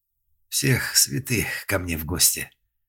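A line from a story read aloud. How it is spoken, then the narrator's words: Straining male groan. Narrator (Russian): простонал он, тяжело поднимаясь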